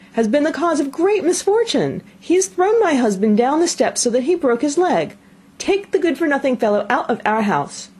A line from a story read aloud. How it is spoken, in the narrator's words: cried she